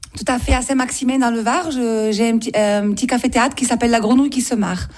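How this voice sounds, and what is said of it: Warm southern French Marseille accent. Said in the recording (French): “votre accent apporte un petit peu de chaleur ... l'accent marseillais, mélangé à l'accent d'Aubagne et l'accent du Var ... un petit mélange qui chante”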